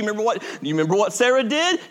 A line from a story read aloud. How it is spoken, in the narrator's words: She laughed